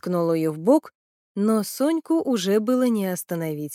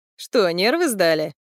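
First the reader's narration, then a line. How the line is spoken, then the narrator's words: Short chuckle. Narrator (Russian): хохотнул рыжий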